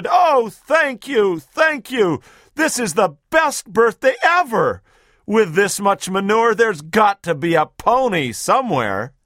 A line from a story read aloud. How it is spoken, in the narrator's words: he shouted